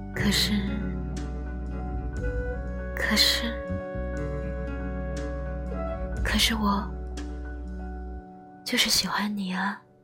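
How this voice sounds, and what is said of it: Very soft, barely audible whisper. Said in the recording (Chinese): “用谁都听不见的声音说”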